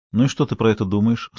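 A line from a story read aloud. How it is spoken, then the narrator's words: Plain. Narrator (Russian): спросил я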